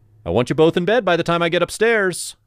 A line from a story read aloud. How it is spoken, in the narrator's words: I shouted